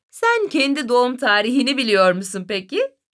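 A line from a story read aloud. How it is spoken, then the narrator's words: Mother, laughing. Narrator (Turkish): dedi annesi gülerek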